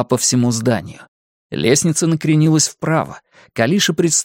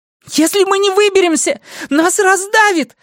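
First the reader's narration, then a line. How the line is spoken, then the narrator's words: Shouting. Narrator (Russian): закричала Калиша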